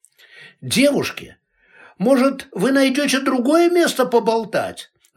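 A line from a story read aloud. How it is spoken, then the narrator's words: Yelling. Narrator (Russian): заорал кто-то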